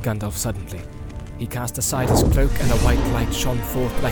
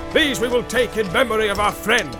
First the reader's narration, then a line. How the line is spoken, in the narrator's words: he cried